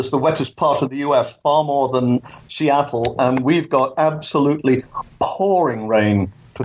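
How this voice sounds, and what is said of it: English accent. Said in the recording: “as you can tell from my accent, I was born in England”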